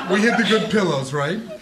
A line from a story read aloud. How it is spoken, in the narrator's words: Anna laughs